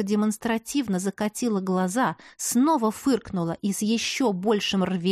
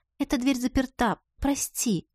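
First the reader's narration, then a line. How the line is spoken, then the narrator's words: Sad. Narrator (Russian): сказала грустно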